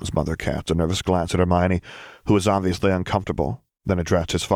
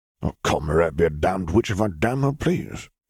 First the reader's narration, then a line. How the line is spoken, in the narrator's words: grumbled his father